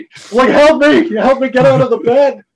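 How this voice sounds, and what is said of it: Shouting. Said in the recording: “I'm shouting at nobody.”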